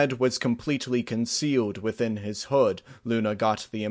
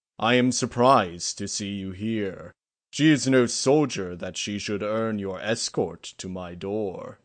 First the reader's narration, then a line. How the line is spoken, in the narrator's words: he said with a hint of laughter in his deep bass voice